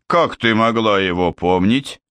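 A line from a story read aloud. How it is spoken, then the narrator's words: Calm bass objection. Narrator (Russian): спокойным басом возразила высокая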